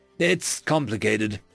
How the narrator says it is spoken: he growled, after several seconds of silence

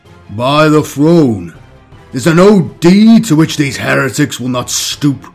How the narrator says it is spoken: boomed Intercessor Sergeant Demetrian

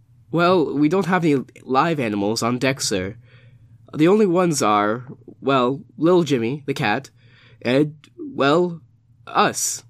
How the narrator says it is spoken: he laughed nervously

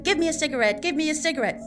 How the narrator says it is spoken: The patient ... shouting

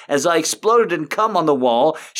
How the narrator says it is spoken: she screamed in pleasure

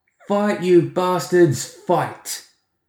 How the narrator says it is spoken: Edmund shouted back over his shoulder

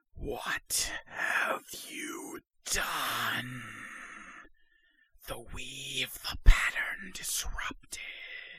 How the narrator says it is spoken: a whispered voice in your head saying

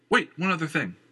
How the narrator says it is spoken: Christian blurted out

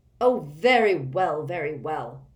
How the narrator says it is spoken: snapped Fudge

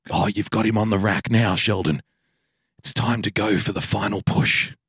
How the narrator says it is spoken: whisper in his ear

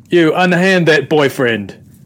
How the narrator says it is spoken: I'm going to yell out

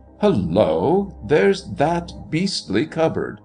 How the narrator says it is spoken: exclaimed to himself, involuntarily, yet aloud

